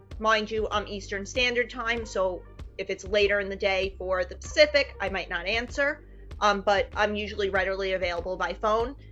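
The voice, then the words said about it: New York accent. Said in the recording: “I love your New York accent”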